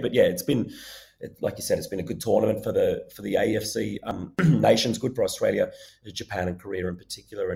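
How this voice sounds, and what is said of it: Strained, fading hoarse voice. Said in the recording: “My voice is going a little bit”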